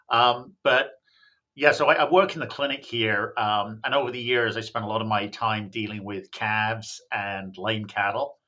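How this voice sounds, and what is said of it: English accent sounding Australian or Kiwi. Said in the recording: “everybody's trying to work out whether I'm from Australia or New Zealand. And I should point out I'm actually from England. I don't know what the hell happened to my accent”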